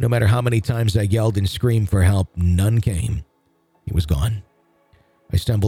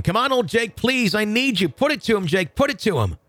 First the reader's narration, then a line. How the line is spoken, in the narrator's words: started yelling once again